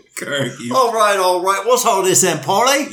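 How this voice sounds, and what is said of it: Put-on London accent. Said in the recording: “You've changed. ... Have you been watching Guy Ritchie films? ... I went to London. Actually, I feel like I sound like Corky St. Clair.”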